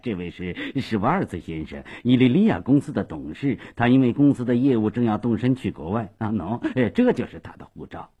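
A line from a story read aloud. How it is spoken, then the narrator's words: Hurried, cheerful. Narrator (Chinese): 斯瓦苏也忙笑嘻嘻地说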